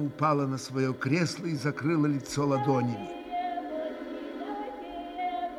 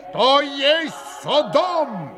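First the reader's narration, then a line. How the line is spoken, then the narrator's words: Sudden roar. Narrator (Russian): взревел вдруг пан Врублевский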